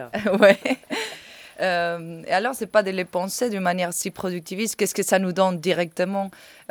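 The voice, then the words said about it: Spanish accent speaking French. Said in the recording (French): “mon accent espagnol ... Tu as un problème avec les U”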